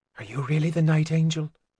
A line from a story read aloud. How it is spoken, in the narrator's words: Keldrosa asked quietly